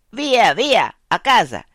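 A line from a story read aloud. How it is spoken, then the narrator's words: Shouting in broken Italian. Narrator (Italian): Un ultimo tedesco, le spalle al cancello, indietreggia, pistola in pugno, gridando in cattivo italiano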